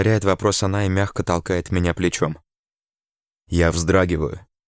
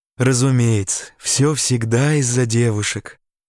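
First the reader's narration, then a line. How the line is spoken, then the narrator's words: Remark, hoarse laugh. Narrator (Russian): замечает Джо и хрипло смеется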